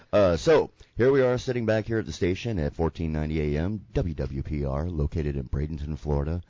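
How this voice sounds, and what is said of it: Unusually deep voice. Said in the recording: “I just got a really deep voice ... Those allergies.”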